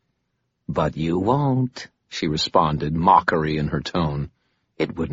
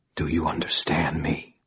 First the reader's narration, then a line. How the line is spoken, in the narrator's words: I whispered